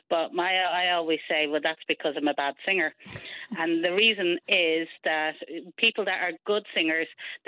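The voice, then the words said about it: Dublin Irish accent. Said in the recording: “that's a Dublin accent”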